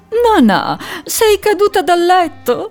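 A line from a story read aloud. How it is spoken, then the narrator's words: Laughing goose asking. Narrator (Italian): domandò ridendo l'oca Nelia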